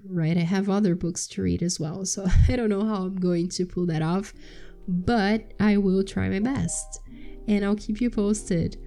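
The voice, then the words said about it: Rough, strained sick voice. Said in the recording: “I have COVID, so that's why my voice is a mess ... It's been very difficult to speak”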